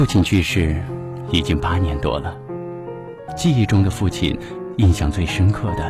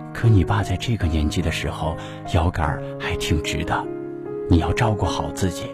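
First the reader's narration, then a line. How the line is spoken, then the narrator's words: Soft voice, mother. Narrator (Chinese): 母亲轻声的说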